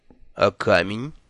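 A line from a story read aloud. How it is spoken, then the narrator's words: Cold reminder. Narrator (Russian): холодно напомнил Лонли Локли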